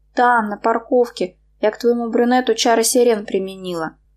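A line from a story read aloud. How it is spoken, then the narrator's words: Sighing. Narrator (Russian): вздохнула она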